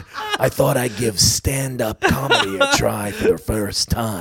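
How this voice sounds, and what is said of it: Jack Nicholson impression. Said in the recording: “a good impression ... Can you do the whole set as Jack Nicholson?”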